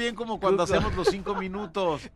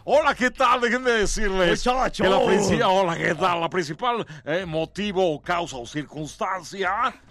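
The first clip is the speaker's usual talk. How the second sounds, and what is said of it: Exaggerated radio announcer voice. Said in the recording (Spanish): “no hagas voz de locutor”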